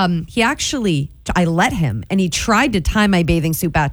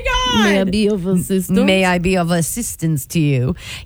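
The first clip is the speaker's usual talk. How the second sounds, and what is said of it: Put-on movie-style Italian accent. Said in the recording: “This lifeguard is an incredibly handsome Italian lifeguard ... In the most movie worthy accent”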